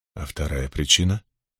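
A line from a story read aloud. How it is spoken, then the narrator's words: Quiet question. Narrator (Russian): тихо спросил Лан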